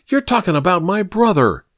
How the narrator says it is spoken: Evelyn cried

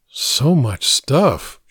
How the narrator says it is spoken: she murmured

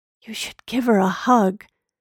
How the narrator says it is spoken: his son walked over and whispered

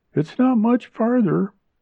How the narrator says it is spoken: Junella said cheerfully

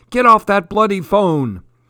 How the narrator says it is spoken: No one bellowing

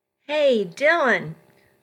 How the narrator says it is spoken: a voice hollered

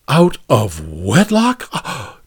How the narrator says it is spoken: Jude gasped

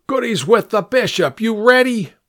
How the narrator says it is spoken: He shouted

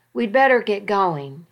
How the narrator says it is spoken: he said

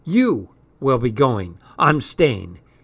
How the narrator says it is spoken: she said firmly

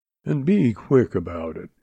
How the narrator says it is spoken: he added huskily

